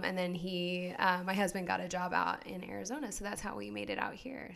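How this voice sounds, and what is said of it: Noticeable regional American accent. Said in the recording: “I can definitely hear an accent in your voice.”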